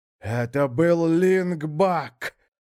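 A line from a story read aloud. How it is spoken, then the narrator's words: Hoarse croak. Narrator (Russian): прохрипел Крум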